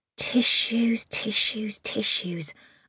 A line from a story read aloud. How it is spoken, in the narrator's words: muttered under my breath